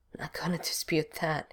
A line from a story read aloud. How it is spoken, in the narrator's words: Stiles laughed softly